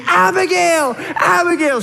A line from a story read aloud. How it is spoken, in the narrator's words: I'm screaming